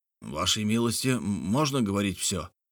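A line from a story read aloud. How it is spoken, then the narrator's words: Quiet question. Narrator (Russian): негромко спросил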